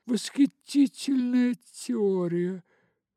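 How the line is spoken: Duchess exclaiming. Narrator (Russian): воскликнула герцогиня

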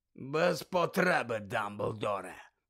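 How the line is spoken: Hoarse growl. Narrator (Ukrainian): пролунало хрипке гарчання

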